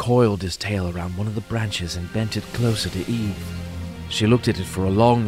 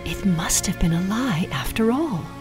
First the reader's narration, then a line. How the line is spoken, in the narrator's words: she whispered